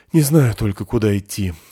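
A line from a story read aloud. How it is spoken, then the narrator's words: Sighing. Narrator (Russian): вздохнул он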